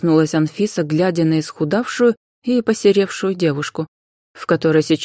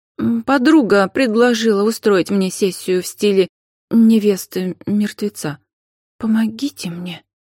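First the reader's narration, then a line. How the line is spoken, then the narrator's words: Trembling voice, young woman. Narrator (Russian): ответила дрожащим голосом девушка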